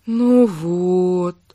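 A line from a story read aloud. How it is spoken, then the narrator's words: Drawn-out drawl. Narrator (Russian): протянула она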